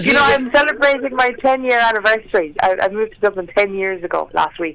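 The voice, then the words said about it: Irish accent from County Clare. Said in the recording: “Irish by birth, Clare by the grace of God ... you held on to your accent”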